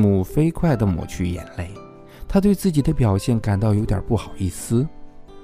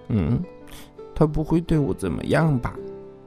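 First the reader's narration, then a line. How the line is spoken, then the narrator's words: Inner muttering. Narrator (Chinese): 吉姆心里嘀咕着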